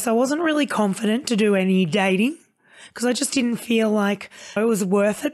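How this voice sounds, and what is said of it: Husky, low voice from lost voice. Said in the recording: “you are sounding like someone that works for 1 800 sexy talk ... lost my voice”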